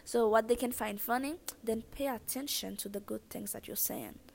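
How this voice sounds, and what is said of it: Speaks with a noticeable foreign accent. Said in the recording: “the type of accent I do have right now ... I know that I have a funny accent ... oh my god, she has an accent”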